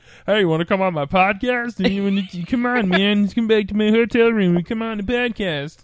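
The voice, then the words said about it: Silly put-on character voice. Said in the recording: “Please don't ever do that voice again. ... That was horrible. ... it wasn't great.”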